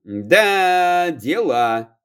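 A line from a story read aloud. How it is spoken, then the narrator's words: Drawling. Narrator (Russian): протянул лесник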